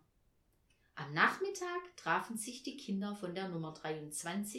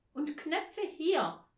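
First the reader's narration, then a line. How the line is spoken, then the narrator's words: Calling out. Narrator (German): rief Tina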